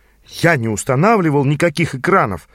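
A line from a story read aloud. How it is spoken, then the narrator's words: Exclaiming. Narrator (Russian): воскликнул я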